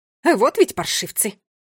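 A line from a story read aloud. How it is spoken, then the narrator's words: Angry cursing. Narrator (Russian): выругалась она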